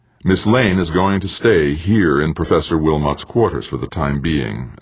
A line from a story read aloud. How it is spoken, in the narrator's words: Everly said smoothly